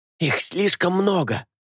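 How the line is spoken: Hissing whisper. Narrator (Russian): свистящим шепотом кровник произнес

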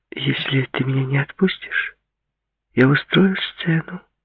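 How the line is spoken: Quiet declaration. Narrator (Russian): негромко заявила она

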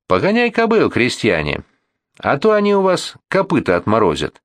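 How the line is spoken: Cheerful shout. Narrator (Russian): весело прикрикнул Полухтин

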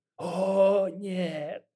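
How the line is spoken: Mocking drawl, snake. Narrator (Russian): с усмешкой протянул змей

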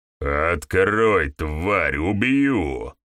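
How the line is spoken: Deep bass voice. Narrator (Russian): Басом добавил

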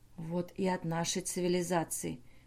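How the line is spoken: Whisper. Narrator (Russian): шепнул Бернар Сигу

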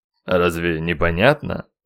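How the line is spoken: Rude, offended retort. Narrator (Russian): грубо оскорбился

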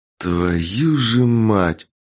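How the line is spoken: Exhaled. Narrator (Russian): выдохнул кот

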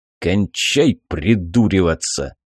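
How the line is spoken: Sharp shout. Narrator (Russian): прикрикнул Сизов

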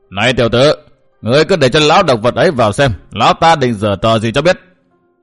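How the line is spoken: Cold old man. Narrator (Vietnamese): vị lão già đầu bù tóc rối cất tiếng lạnh lùng

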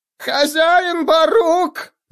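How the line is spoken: Squealing. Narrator (Russian): завизжал он

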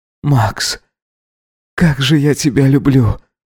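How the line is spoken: Whisper. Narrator (Russian): прошептал он Максу

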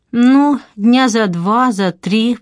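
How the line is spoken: Reluctant drawl. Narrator (Russian): протянула она неохотно, словно оказывала большую услугу

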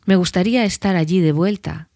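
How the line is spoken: Plain. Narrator (Spanish): dijo

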